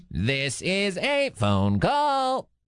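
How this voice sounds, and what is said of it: Robot voice. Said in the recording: “doing a little robot voice.”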